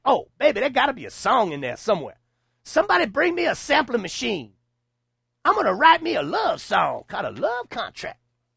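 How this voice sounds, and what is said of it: Impression sounding like Jesse Jackson. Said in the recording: “Which accent? ... Jesse Jackson. ... Does that sounded like my Jesse Jackson? ... There might have been a little Jesse in there”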